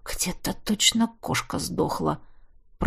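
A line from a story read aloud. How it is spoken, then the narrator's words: Mumbled. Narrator (Russian): пробормотал я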